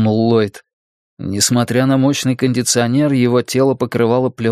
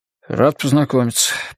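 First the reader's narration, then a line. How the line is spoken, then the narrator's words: Mumbled. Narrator (Russian): пробормотал он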